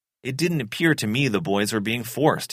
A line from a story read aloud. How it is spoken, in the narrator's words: he said